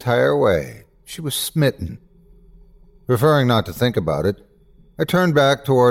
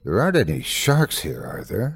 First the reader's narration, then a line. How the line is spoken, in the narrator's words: I asked Daniela, trying to keep my voice as calm as possible